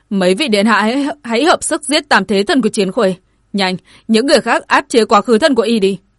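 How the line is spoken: Angry shout. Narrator (Vietnamese): Dương Hồ giận dữ hét lên

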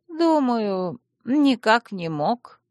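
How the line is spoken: Sad but confident. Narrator (Russian): печально, но уверенно заявила она

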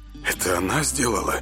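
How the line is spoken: Quiet surprised question. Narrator (Russian): с неподдельным удивлением тихо спросил Север

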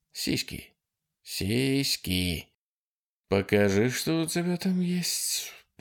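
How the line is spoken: Muttered. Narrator (Russian): пробормотал Ситерстон

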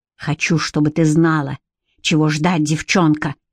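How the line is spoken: Hiss. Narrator (Russian): прошипел

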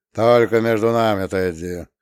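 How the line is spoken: Muffled, low. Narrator (Russian): глухо молвил он

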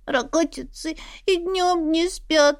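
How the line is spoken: Sobbing but calmer answer. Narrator (Russian): ответила Астра, снова всхлипнув, но уже гораздо спокойнее

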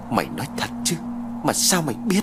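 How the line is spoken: Through gritted teeth. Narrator (Vietnamese): Lâm nghiến qua kẽ răng

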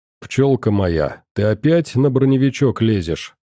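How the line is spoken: Amused snort. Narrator (Russian): хмыкнул я

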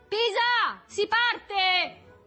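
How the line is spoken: Shouting. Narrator (Italian): Berto gridava

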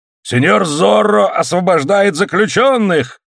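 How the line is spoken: Shouting. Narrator (Russian): кричал он

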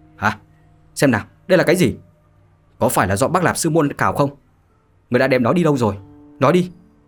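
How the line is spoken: Sudden sharp shout. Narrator (Vietnamese): Khuôn mặt bất giác biến chuyển, quát

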